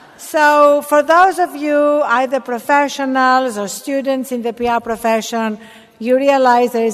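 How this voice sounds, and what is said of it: Non-American accent. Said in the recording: “this accent is for real ... cultivated this accent to give myself an air of being an ethnic minority”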